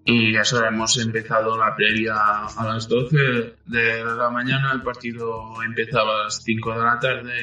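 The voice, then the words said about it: Catalan-accented Spanish, somewhat closed. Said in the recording (Spanish): “yo soy catalán, mi idioma materno es el catalán ... también es un poco cerrado y no sé si se me entenderá ... algunas consonantes las haré muy”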